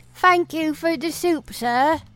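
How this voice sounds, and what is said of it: Put-on British accent. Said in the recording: “I didn't have a British accent until my parents died? Oof. I'm from Oklahoma.”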